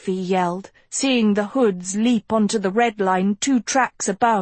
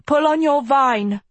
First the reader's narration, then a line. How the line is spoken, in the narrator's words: Agatha shouted